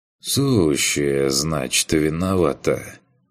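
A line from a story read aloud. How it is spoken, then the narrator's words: Sigh. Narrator (Russian): Вздохнул я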